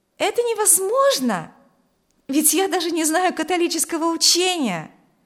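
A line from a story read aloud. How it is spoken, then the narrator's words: Excited exclamation. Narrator (Russian): воскликнула Маргита возбужденно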